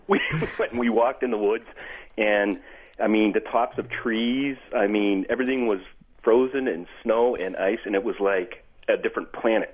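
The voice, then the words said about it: Boston accent. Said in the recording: “You guys talking together is increasing your Bostonian accent.”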